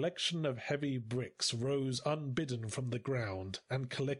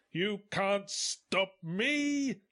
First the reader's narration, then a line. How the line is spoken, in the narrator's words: he roared